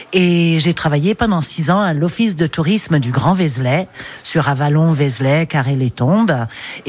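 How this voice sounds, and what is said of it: Slight English accent in French. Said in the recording (French): “Vous avez un petit accent ... je suis anglaise”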